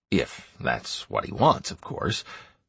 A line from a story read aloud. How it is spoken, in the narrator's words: I added quietly